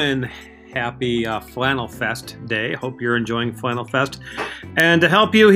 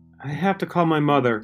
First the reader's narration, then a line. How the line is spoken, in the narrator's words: she said to him in a timid voice